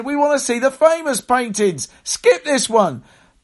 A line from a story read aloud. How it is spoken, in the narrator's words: a voice at the back of the room shouted